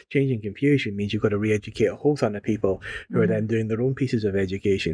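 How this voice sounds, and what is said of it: Scottish accent. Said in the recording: “In Scotland, which is where I'm from, if you can't tell from the accent”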